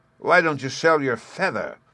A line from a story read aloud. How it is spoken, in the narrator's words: said Hans, sneeringly